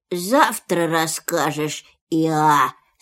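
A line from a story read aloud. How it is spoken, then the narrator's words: Sleepy. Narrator (Russian): сказал Пух сонным голосом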